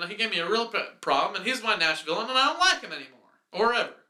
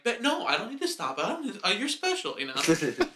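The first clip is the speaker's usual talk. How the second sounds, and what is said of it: Imitates another person's voice. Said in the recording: “That's my impression of that guy.”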